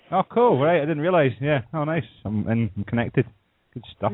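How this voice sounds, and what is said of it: Scottish accent. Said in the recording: “I love that accent every time I hear it.”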